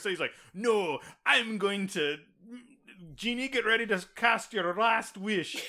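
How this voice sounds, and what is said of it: Put-on Scottish accent, improving. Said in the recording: “Your Scottish accent there. It got better as it went on.”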